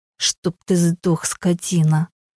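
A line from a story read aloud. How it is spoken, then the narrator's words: Spiteful, through gritted teeth. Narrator (Russian): Злобно процедила она сквозь зубы, с ненавистью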